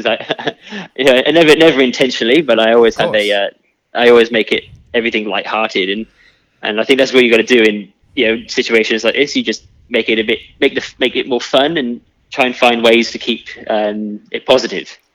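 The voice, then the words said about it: Welsh accent. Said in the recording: “you were actually born over in Wales, and everyone can probably pick that up from your accent”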